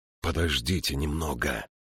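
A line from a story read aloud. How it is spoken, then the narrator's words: Whisper. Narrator (Russian): прошептал Джошу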